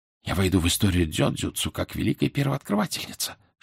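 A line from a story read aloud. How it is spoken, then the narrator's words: Whispering. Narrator (Russian): шептала Мидори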